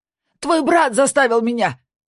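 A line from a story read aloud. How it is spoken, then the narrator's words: Shouting. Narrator (Russian): крикнул Бьорн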